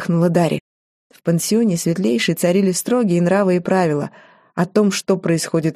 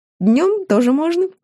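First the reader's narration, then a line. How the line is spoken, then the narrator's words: Giggle. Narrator (Russian): хихикнула Ария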